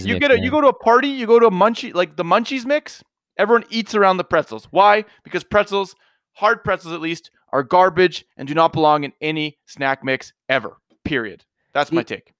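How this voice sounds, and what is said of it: Fast, aggressive, emotional rant. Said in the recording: “You were really aggressive there... maybe it's just how fast you're saying it... You put too much emotion into your white hot take”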